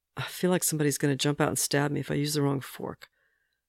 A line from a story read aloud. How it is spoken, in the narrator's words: Bucky mutters